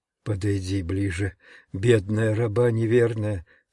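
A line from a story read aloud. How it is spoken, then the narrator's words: Very quiet speech. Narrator (Russian): Тихо-тихо сказала она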